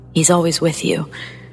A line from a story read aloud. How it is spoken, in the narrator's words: blurting out